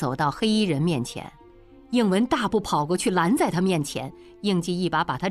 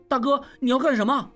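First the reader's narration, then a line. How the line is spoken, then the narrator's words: Alarmed shout. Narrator (Chinese): 应文大惊，叫道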